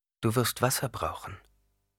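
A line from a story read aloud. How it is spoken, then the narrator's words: Plain. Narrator (German): sagte Jessica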